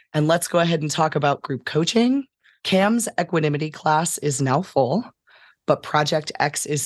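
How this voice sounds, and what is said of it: Worn-out, rough, weary voice. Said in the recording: “my voice is a little worn out today ... the rough quality of my voice ... I actually just got home from seeing 5 shows in a row. So my voice is a little weary”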